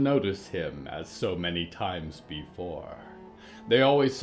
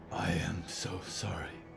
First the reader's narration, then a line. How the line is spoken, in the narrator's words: Diggory whispered and winced